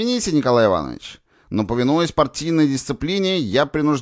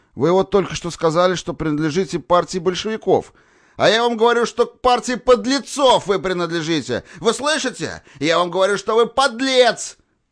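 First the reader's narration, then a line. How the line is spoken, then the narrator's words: Shouting. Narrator (Russian): выкрикнул Николай Иванович, хватаясь руками за сердце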